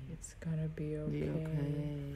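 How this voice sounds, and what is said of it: Very deep voice. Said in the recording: “in a very, very deep voice”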